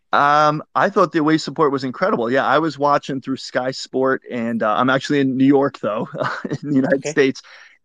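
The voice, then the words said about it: Non-British accent. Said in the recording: “your accent suggests to me that you might not be in the UK”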